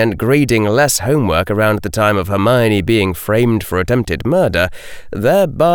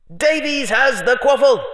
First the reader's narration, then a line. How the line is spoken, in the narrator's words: shouted the amplified voice of Lee Jordan